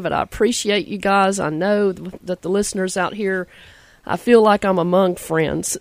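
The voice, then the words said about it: Slightly hoarse, froggy voice. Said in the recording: “my voice is a little froggy today”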